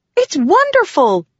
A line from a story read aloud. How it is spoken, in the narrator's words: Shallan exclaimed